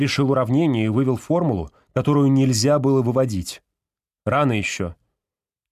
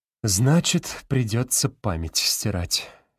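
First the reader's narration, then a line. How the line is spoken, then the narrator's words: Heavy sigh. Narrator (Russian): тяжело вздохнул Кошкин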